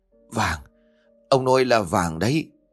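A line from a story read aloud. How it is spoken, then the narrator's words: Stammering in shock. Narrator (Vietnamese): bà mồm lắp bắp không thành lời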